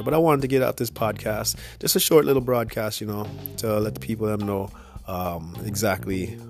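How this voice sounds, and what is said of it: Congested, nasal voice. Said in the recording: “I'm feeling a little under the weather right now, just getting over that little flu ... my voice is not always like this. It sounds real nasally”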